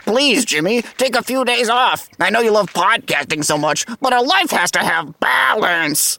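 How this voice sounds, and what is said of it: Imitates other people's voices. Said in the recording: “That's my impression of my bosses and friends.”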